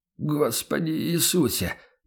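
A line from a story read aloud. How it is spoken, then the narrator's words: Merchant mumbling. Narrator (Russian): пробормотал торговец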